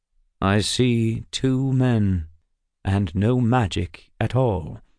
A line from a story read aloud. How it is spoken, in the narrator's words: Kirill answered slowly